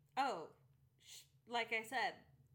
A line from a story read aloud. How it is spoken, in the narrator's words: she cried